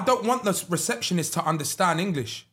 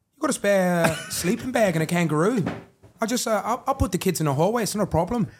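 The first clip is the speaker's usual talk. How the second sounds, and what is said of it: Put-on Australian accent, bit South African. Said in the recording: “That's an accent... I thought he's wanting me to do the accent... Good accent, though... It's a bit South African-y.”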